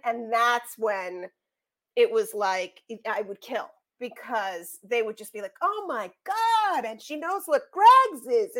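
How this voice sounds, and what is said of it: New York accent. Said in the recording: “my New York accent... my weird accent”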